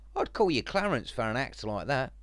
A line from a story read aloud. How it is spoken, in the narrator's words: Adam chuckled